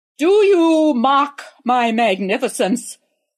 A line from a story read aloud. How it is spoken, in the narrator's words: roared the emperor in his most imperious voice